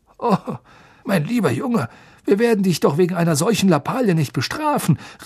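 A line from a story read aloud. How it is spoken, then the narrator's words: Impatient exclamation. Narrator (German): rief Fudge und fuchtelte mit der Brötchenhälfte in der Hand ungeduldig durch die Luft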